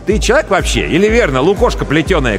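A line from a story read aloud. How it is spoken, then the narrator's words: Shouting. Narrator (Russian): кричал Андрей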